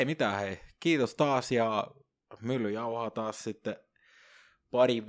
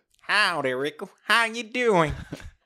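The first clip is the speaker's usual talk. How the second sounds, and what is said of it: Put-on Texan cowboy English accent. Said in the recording (Finnish): “Texas. ... cowboy, how you doing?”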